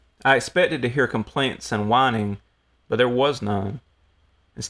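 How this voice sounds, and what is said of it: Usual voice. Nothing is said of it.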